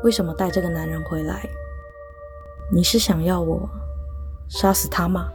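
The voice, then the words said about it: Quiet, hushed voice. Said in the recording (Chinese): “小声的在我耳边说”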